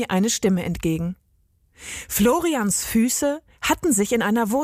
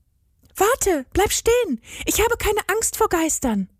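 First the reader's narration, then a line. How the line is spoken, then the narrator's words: Called into the darkness. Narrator (German): rief Agathe in die Dunkelheit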